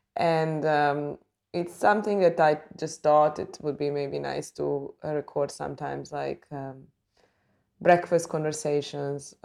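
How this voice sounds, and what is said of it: Early-morning voice. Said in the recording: “as you can hear by my voice, it's very early in the morning.”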